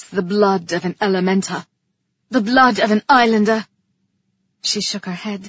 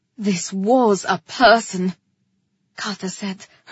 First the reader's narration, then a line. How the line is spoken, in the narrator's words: her voice a snarl